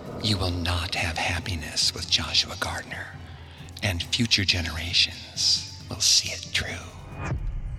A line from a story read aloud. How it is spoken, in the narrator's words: Kate whispered in her ear